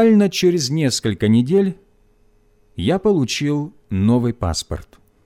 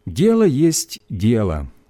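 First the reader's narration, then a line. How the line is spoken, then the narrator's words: Plain. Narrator (Russian): сказала она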